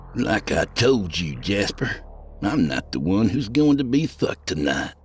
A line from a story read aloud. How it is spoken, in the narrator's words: he sneered